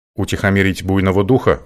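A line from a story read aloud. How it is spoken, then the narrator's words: Skeptical snort. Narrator (Russian): хмыкнул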